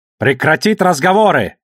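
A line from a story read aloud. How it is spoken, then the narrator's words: Barked through helmet speaker. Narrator (Russian): рявкнул старший, насилуя динамик в шлеме у Баси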